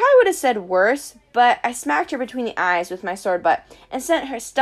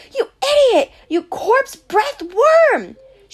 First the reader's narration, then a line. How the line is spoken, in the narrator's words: You screamed